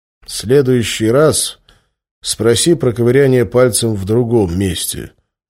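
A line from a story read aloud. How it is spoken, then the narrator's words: Gloomy. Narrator (Russian): мрачно ответил я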